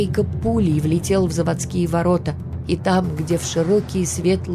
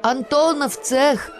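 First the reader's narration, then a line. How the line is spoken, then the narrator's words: A boy shouting. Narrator (Russian): крикнул кто-то из ребят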